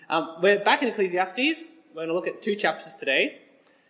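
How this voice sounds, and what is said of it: Sick, strained voice. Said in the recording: “I'm again slightly sick. ... My voice isn't working great”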